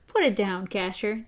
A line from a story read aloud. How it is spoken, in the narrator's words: TikTok said in a reasonable tone of voice